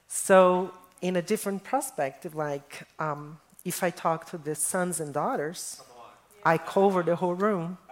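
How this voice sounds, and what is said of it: Brazilian accent. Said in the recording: “this accent is not fake. I am Brazilian, born in Brazil”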